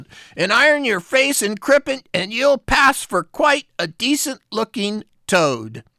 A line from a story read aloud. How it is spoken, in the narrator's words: she called out